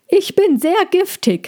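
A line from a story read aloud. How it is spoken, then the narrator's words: Loud call. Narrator (German): rief Cassandra laut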